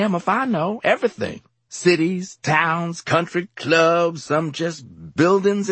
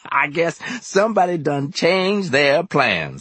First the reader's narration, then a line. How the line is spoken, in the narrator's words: he added with a laugh